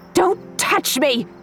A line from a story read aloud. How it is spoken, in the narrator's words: She shrieked